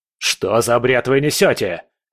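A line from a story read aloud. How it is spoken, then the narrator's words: Barking, shouting over someone. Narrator (Russian): рявкнул Риббентроп, перекрикивая его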